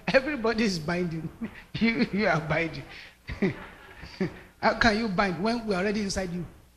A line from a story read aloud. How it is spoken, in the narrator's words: When they finished laughing, they now stood up and said